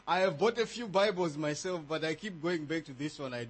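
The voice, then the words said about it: African-accented English. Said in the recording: “I sincerely hope you are going to understand my accent ... not to show how we sing in the African way”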